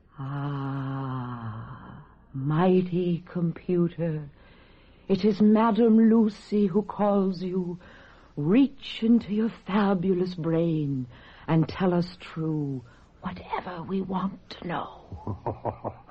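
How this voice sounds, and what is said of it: Phony fortune-teller accent. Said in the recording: “that phony accent”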